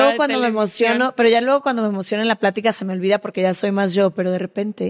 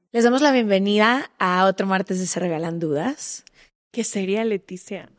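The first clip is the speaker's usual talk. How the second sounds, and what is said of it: Polished TV presenter voice. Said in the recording (Spanish): “hacer la voz así. Como que al principio del episodio es cuando me acuerdo que yo en algún momento fui conductora de televisión”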